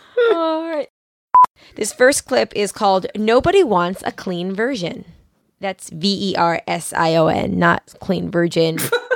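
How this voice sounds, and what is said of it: Sick-sounding, accented voice. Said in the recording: “my sickness and my accent”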